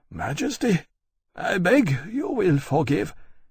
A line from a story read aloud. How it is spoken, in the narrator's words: He paused and said, his voice almost breaking